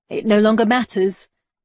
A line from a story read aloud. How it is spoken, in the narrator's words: Seth said, far more cheerfully than was appropriate considering the circumstances